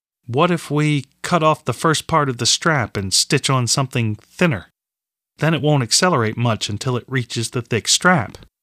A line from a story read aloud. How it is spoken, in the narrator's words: he said